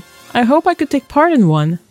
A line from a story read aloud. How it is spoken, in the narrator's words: sighed Bashir